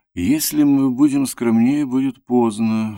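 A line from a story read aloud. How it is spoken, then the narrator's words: Sudden quiet thoughtful speech. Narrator (Russian): вдруг сказал Антон тихо и задумчиво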